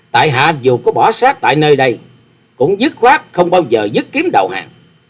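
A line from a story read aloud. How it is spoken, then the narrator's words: Loud laughing. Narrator (Vietnamese): Hoa Sĩ Kiệt cười to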